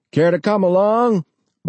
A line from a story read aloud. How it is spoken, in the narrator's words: Bob shouted to John